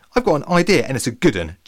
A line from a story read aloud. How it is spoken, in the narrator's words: Jenny exclaimed